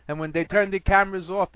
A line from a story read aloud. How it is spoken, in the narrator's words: he shouts